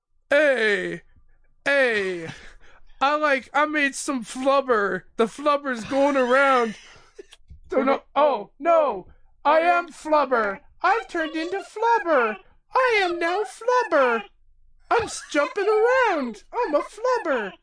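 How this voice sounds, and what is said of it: Imitates another person's voice. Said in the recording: “Everyone loves Robin Williams, right? ... Was that a good impression? ... That was pretty good, flubber.”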